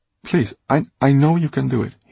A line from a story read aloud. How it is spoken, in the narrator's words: he stammered